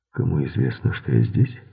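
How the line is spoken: Plain. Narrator (Russian): спросил Мейсон

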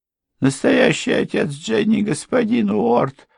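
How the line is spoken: Moaned. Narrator (Russian): простонала госпожа Крент

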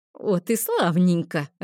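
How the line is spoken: Laughing. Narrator (Russian): рассмеялся Мейгор

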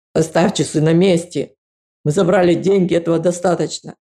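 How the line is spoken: Said roughly. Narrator (Russian): он грубо сказал

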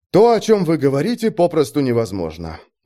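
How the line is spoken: Sighing. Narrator (Russian): вздохнул он

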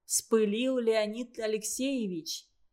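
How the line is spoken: Gentle, apologetic. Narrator (Russian): Злобин уже успокоился, сказал ласково, даже виновато, вспомнив горе коллеги

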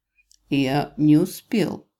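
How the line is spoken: Calm explanation. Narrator (Russian): объяснил спокойно

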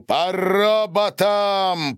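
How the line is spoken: Roared. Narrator (Russian): проревел Гарин

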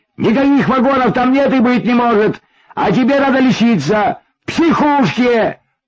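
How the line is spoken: Yelling, out of patience. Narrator (Russian): вопил он, потеряв всякое терпение

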